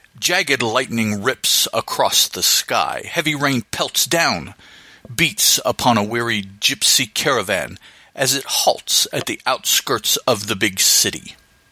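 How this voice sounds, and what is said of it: Dramatic narrator voice. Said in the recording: “in my narrator voice”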